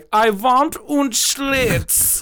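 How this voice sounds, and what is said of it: Put-on German accent. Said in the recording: “Whenever I do a German accent”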